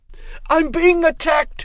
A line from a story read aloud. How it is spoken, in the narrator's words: screamed